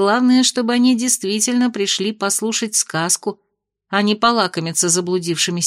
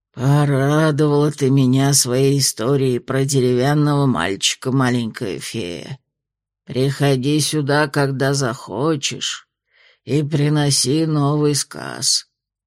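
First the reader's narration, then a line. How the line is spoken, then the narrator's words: Creaky voice. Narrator (Russian): проскрипел Краунд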